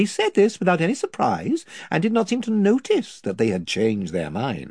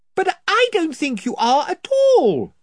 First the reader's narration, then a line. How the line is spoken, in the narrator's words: said Lucy, shouting to make herself heard